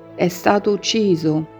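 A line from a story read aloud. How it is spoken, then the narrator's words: Very quiet, heavy words. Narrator (Italian): come fosse un enorme fragore che copra ogni rumore del mondo, eppure è stata detta molto piano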